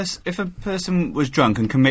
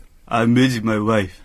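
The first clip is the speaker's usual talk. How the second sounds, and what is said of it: Drunk-sounding slurred voice. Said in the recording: “does a good impression of a drunk man confessing to murder”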